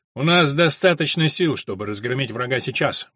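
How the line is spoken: Cheerful objection. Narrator (Russian): бодро возразил он

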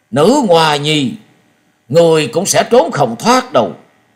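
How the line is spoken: Furious roar. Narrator (Vietnamese): Gió Đang Cuồng Đạo nổi giận gầm lên một tiếng và nói

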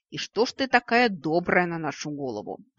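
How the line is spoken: Grumbling. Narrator (Russian): проворчал Вик

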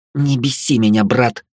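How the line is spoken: Growling. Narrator (Russian): Велея уже рычала

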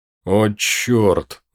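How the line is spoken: Groan. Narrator (Russian): застонал Мартин

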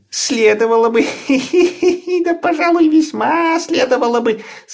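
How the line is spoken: Laughing. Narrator (Russian): смеялся папа Ларсон

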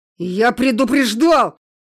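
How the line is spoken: Growling. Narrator (Russian): рычал Костя

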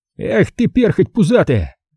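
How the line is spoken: Shouting. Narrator (Russian): кричал он

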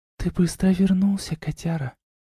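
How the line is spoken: Whispered. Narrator (Russian): прошептала Арна

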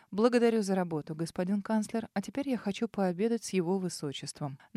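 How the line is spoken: Dry offhand remark. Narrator (Russian): сухо обронив Арману

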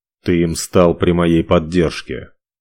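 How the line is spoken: Bored tone. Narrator (Russian): Скучающим тоном сообщил Ивар

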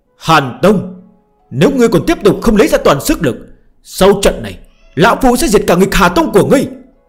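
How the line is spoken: Heavy breathing, sudden roar. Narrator (Vietnamese): Trần Hạ Thiên hít thở ồ ồ, chợt gào thét

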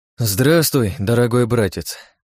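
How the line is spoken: Sigh. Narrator (Russian): вздохнул я

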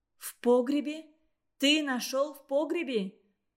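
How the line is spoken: Female exclamation. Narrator (Russian): воскликнула

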